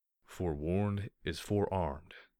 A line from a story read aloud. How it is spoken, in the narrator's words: he said calmly